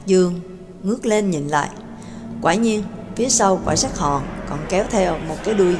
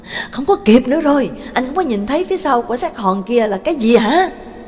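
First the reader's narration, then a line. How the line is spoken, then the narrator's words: Screaming. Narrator (Vietnamese): Sin gào lên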